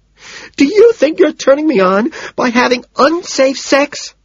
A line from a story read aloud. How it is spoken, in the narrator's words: She screams back